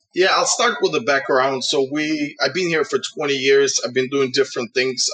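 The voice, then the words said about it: Uzbek-accented English. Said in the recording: “with your Uzbek and background ... I loved your accent”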